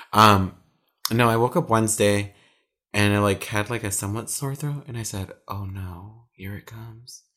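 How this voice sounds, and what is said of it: Sick, lower-pitched voice. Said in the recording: “I'm still sick. Can you guys tell that my voice is an octave lower?”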